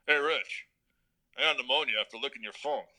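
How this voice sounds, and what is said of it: Gruff imitation of another person. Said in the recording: “he had that gruff personality ... That's a good impersonation too”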